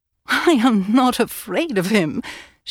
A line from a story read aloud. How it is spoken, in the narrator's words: she laughed